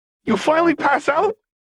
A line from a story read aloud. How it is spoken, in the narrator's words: Echo shouted